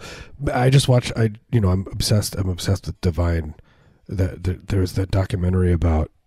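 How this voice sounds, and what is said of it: Usual voice. Nothing is said of it.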